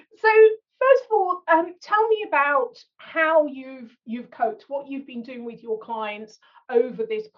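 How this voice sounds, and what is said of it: English accent. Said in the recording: “I have the English accent ... You're saturated by the English accent in America.”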